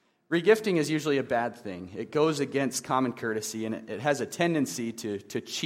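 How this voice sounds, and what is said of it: Usual voice. Nothing is said of it.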